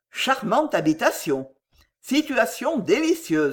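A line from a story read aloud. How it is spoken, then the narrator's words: Plain. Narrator (French): dit-il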